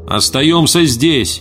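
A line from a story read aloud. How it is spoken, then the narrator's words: Shouted. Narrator (Russian): прокричал Эрвин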